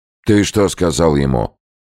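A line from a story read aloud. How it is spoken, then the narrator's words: Stern question. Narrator (Russian): строго спросил Абдель Сауд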